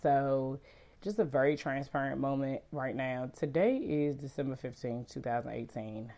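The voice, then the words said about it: Sick, hoarse voice. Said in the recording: “Excuse my voice, I am suffering from allergies, a cold or something ... my voice goes in and out”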